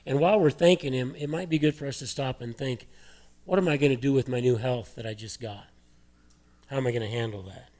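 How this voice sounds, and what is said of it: Hoarse, failing voice. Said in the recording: “Sorry, I'm losing my voice here.”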